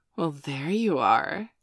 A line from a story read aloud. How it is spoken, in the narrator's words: Dana purred